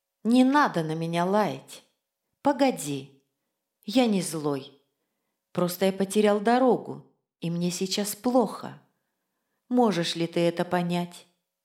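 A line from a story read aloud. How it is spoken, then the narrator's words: Very quiet, heartfelt. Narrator (Russian): очень тихо и проникновенно я ему сказал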